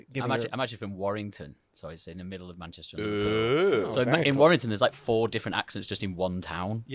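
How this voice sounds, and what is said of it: Northern English Mancunian accent. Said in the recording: “from Manchester, so he has a more Mancunian”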